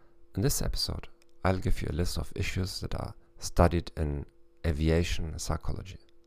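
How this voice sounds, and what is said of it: German-accented English. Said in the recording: “in English with a German accent”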